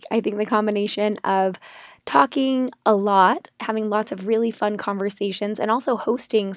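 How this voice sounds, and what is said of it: Strained, hoarse voice. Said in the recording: “You may be able to tell from my voice that my vocal cords aren't 100% this week”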